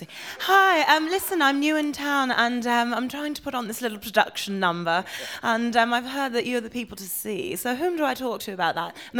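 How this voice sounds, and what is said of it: Put-on English accent. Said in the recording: “I just show up as somebody else ... So we're suckers for an English accent, then.”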